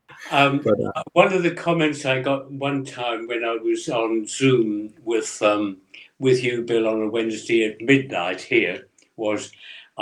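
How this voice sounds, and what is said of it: English accent. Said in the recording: “I just love that English accent”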